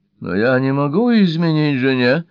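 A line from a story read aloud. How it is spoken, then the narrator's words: Groan. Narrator (Russian): простонал Брайан Мосс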